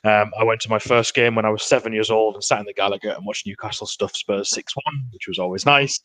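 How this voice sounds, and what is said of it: Northeast English (Geordie) accent. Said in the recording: “as you can probably tell from my accent. That's where I'm sort of from, up in the northeast.”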